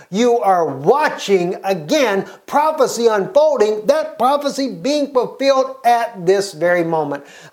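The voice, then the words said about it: Excited yelling. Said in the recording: “sorry for yelling,... I'm just so excited.”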